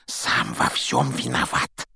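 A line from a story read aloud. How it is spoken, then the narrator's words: Heavy sigh. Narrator (Russian): тяжело вздохнул Рон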